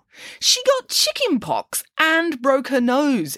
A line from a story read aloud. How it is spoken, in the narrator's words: exclaimed Nanny Piggins